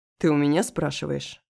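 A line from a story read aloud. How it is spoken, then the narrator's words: Growled. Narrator (Russian): прорычал Руслан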